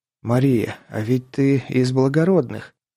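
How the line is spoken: Hoarse wheeze. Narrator (Russian): просипел я

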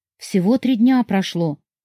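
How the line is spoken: Timid and anxious. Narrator (Russian): робко и встревоженно начала она

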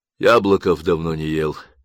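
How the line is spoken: Sighing. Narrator (Russian): вздохнул боцман

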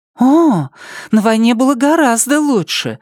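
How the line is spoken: Excited exclamation. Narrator (Russian): взволнованно восклицает

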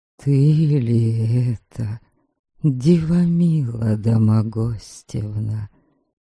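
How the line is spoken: Quiet, incredulous, joyful, dialect. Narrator (Russian): Тихо, с недоверием и радостью проговорил Ворга, и даже его окающий кривичский говор

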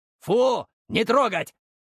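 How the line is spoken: Shouted from a distance. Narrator (Russian): крикнул уже от двери

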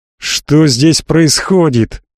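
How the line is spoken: Menacing roar. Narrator (Russian): грозно заревел капеллан

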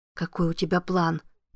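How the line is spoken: Whisper. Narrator (Russian): прошептала Аманда

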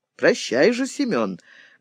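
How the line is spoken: Pensive. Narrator (Russian): говорил задумчиво Черный

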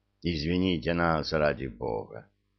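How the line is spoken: Mumble. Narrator (Russian): пробормотал майор

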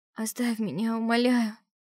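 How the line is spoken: Lifeless voice. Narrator (Russian): безжизненным голосом произнесла я

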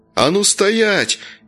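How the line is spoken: Shouted. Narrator (Russian): крикнул Вася

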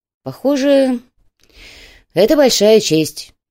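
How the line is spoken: Sighing. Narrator (Russian): вздохнул Чайка

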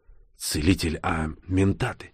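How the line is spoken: Nervous whisper. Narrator (Russian): нервно шепнул

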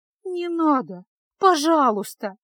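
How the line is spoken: Tearful pleading. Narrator (Russian): жалобно молила Феска, заливаясь слезами

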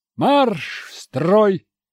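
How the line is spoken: Barked order. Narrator (Russian): рявкнул старпом

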